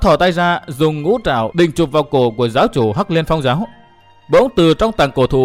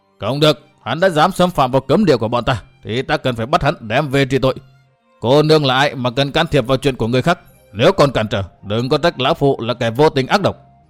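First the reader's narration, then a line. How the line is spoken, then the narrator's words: Angry shout. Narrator (Vietnamese): Lão giận dữ quát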